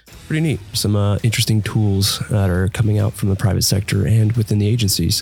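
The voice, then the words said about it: Scratchy, hoarse voice with a cold. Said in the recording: “my voice sounds all kind of weird and scratchy, but apparently I decided to catch a cold”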